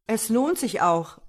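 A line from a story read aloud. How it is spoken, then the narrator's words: Calling out. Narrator (German): rief er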